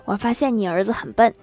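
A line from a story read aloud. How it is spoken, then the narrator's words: Laughing. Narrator (Chinese): 郭大侠笑着跟媳妇儿说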